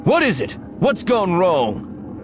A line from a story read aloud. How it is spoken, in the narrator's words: Lando shouts